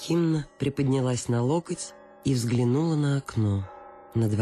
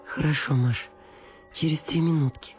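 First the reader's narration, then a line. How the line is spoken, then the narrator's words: Pleading voice. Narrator (Russian): сказала Анна Акимовна умоляющим голосом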